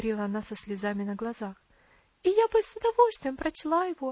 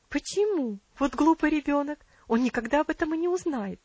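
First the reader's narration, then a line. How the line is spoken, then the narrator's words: Quick exclamation. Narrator (Russian): быстро воскликнула ее тетя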